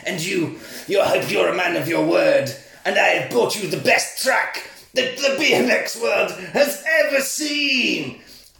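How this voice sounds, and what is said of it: Put-on evil villain accent. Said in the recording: “Were you putting on a foreign accent? ... It's an evil accent, not a foreign one.”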